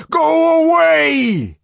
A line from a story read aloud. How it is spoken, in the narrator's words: he shouted